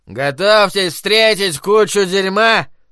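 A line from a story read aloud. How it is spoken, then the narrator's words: Drunken mutter. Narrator (Russian): Пьяным голосом пробормотал Майрон Ляфлер из-за охладителя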